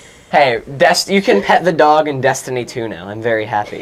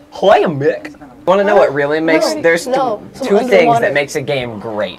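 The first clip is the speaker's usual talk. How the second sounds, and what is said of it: Goofy impression. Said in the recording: “I can do a hella good Goofy impression”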